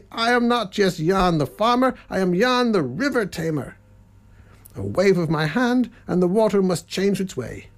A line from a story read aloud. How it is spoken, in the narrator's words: called out loudly